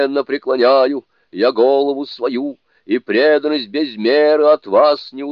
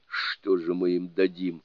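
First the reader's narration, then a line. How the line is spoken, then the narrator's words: Quiet. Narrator (Russian): тихонько сказал Джоубадзе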